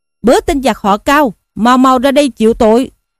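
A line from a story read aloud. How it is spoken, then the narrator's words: Battle challenge shout. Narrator (Vietnamese): Lâm Xung hoành cây bát xào mâu, vỗ ngựa xông ra quát lên rằng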